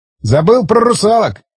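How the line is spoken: Snorting. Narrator (Russian): хмыкнул Борис

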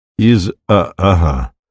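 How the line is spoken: Plain, stranger. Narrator (Russian): сказал незнакомец

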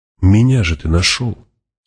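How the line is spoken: Soft, persuasive. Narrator (Russian): сказала Джессика уже мягко, убеждающе

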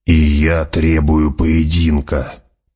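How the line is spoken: Growling. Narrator (Russian): прорычал Джамис

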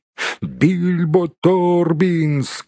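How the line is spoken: Group shouting. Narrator (Russian): кричали они

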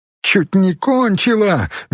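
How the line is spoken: Shrill laughter. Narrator (Russian): визгливо засмеялась Инга

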